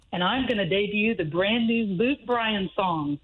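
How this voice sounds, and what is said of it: Radio announcer voice. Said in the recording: “Radio voice.”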